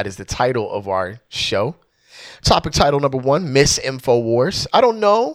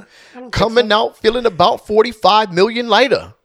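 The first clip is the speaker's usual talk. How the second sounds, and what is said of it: Imitates another person's voice. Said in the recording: “my Ice Cube impression”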